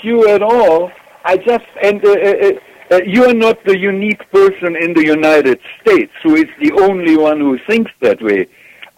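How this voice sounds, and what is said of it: German accent. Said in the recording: “as you may tell from my accent, I'm German”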